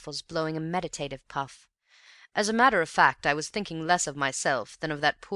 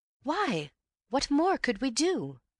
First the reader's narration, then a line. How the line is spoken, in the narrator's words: I exclaimed in soft derision